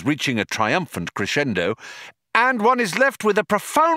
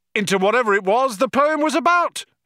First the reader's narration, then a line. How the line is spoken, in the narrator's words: he yelled